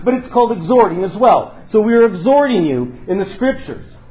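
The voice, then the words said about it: Loud yelling preaching voice. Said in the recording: “you're yelling at me. Well, I am yelling.”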